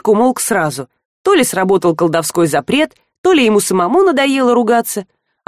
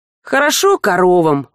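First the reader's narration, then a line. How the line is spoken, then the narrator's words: Glum. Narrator (Russian): уныло сказал Жар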